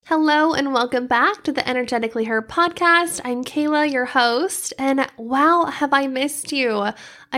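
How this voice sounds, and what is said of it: Congested voice from a cold. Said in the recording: “I have been sick with this terrible cold and I'm still kind of fighting it a little bit. So if you hear that in my voice, that is why”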